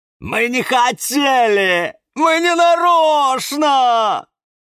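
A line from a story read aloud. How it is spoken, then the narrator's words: Wailing, near tears. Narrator (Russian): Завопил Каланхоэ и сделал вид, что сейчас расплачется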